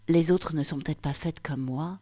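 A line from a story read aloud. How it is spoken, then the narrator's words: Deep confident voice. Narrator (French): lançai-je d'une voix grave et assurée, comme si la cagoule qui recouvrait mon visage m'avait donné l'assurance d'une braqueuse de banque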